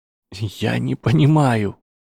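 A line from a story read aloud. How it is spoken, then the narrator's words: Trembling voice. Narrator (Russian): сказал Гарри дрожащим голосом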